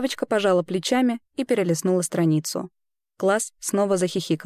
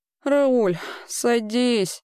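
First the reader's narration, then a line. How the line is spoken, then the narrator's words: Distant heavy sigh. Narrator (Russian): тяжело вздохнула Проуапац где-то далеко, на фоне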